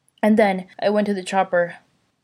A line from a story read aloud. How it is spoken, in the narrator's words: gasps out as he finishes